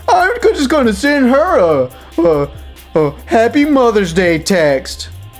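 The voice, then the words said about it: Imitates another person's voice. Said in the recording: “doing a fucking stupid impression.”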